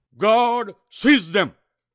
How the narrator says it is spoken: his great voice thundered out

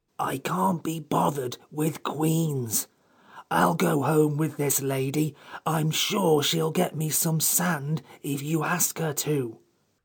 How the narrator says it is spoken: the Psammead put one eye cautiously out of the basket and whispered

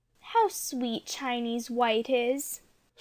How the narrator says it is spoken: said dreamily

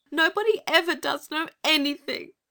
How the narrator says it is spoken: sobbed Anthea

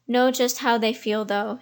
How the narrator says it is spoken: said he

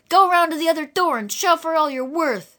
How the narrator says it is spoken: cried in the manly tones that all must obey

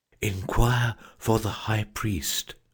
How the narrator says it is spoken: whispered the Phoenix

